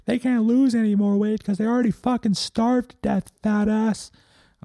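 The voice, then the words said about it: Yelling. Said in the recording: “yelling”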